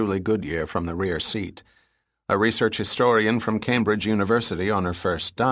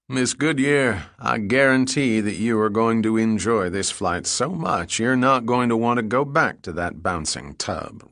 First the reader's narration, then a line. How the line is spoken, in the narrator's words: replied the pilot in a Texas drawl